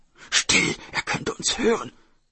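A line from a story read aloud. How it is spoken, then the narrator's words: Brother hissing. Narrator (German): zischte der Bruder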